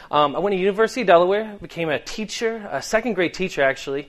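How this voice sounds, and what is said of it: Boston accent, dropped R's. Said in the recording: “I can't say my R's half the time. My mother is from Boston, so I picked up her accent”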